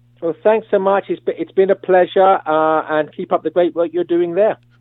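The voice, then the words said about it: English accent. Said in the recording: “The English accent”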